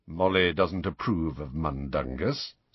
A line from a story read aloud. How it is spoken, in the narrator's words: said Sirius in an undertone